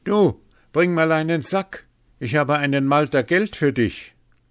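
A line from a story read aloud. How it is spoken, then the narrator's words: Called out. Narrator (German): rief Hans ihm entgegen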